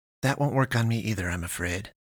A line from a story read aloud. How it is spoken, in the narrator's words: pastress muttered